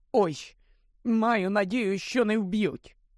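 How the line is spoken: Moaning. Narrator (Ukrainian): простогнала Герміона

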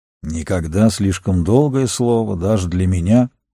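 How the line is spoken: Grumbling. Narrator (Russian): проворчал Фангорн

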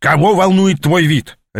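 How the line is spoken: Sharp bark. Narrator (Russian): рявкнул он

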